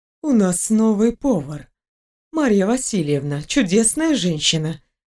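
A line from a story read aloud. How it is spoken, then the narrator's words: Light, casual tone. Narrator (Russian): продолжала она все тем же легким тоном, будто ничего и не произошло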